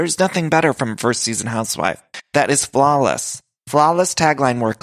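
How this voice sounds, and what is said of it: Usual voice. Nothing is said of it.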